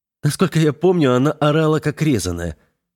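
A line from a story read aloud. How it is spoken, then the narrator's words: Laughing. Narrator (Russian): рассмеялся Веснин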